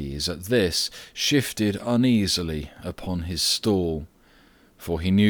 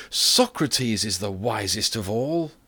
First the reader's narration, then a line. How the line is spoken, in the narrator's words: the people applauded more loudly than before, and cried